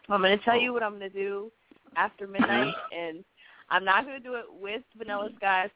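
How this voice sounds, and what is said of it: Congested voice. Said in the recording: “I have a little cold, too, so I sound a little congested.”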